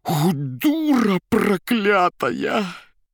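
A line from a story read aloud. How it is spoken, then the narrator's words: Hoarse wheeze. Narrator (Russian): Никанор Иванович, хрипя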